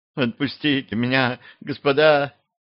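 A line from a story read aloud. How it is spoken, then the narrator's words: Sobbing boy. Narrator (Russian): всхлипнул мальчишка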